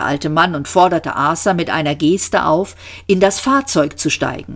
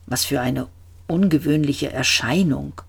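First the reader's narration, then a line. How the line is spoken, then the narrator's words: Murmured. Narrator (German): murmelte er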